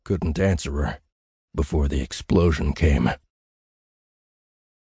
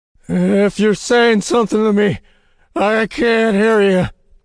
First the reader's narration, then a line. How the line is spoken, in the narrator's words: said, shouting the words